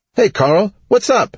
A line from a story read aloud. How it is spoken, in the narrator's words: she said in a dangerously happy voice